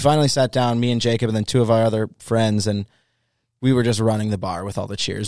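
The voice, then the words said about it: Hoarse, strained voice. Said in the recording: “that's mostly where my voice went”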